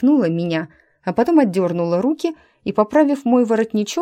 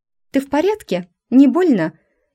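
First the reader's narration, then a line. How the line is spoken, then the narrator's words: Barking. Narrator (Russian): И тут же снова рявкнула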